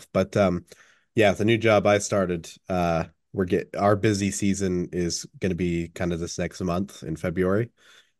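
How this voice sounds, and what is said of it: Sick, slightly congested voice. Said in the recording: “you can already probably tell from my voice, I'm a little bit sick again”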